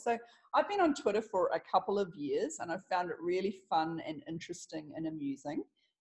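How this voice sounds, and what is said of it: Smooth New Zealand accent. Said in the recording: “the Kiwi accent ... It's the sexiest accent on the planet ... I'm a pretty smooth kind of a voice”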